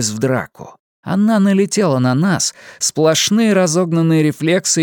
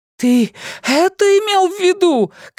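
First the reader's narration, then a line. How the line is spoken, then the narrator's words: Distant shouting. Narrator (Russian): кричала Джеймс из какого-то темного и такого далекого убежища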